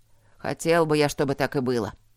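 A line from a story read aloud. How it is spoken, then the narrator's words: Grumbled. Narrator (Russian): пробурчал он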